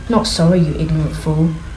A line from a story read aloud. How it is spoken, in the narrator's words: he muttered